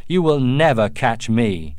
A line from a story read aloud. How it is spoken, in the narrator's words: The Huron turned and shouted